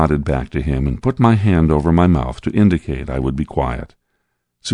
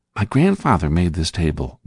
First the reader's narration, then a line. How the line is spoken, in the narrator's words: whispered Samuel